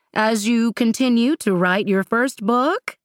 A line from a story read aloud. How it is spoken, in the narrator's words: Alix chuckled